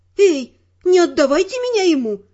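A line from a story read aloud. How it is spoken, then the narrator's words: Exclaiming. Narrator (Russian): воскликнула я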